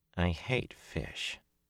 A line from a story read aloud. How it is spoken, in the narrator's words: muttered under her breath